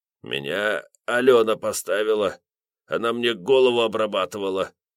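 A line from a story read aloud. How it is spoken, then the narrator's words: Breathless croak. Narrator (Russian): проскрипел кое-как, пытаясь хоть как-то отдышаться и в себя прийти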